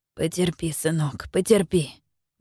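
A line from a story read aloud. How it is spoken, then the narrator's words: Muttering. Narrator (Russian): бормочет он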